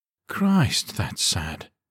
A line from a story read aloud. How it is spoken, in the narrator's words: Davila said with a sigh